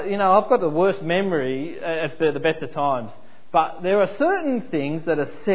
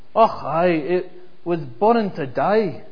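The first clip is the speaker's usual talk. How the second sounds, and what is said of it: Poor put-on Scottish accent. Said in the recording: “in my worst Scottish accent”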